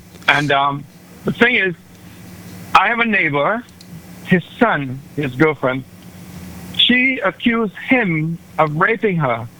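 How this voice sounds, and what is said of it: Caribbean accent. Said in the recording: “You're hearing a Caribbean accent”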